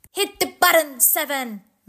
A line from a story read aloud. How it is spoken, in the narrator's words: Max yelled